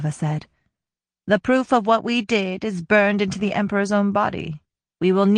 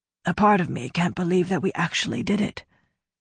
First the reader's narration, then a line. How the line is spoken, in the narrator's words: Gautna said softly